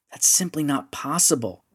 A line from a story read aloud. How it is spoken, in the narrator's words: whispered